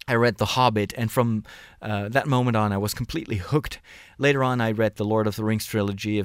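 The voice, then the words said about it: Non-native English, slightly strange accent. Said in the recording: “I'm a priest in the Netherlands, so that is why sometimes you might hear a bit of a strange accent... I'm not a native speaker.”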